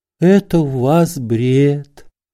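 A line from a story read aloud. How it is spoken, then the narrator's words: Gentle. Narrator (Russian): ласково сказала докторша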